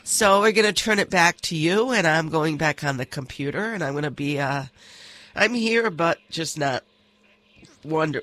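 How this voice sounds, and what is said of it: Congested, stuffed-up voice. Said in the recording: “you sound a little stuffed up there ... I'm under the weather”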